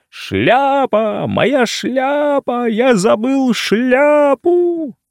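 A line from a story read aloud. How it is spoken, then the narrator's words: Sudden shout. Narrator (Russian): Шуров вдруг закричал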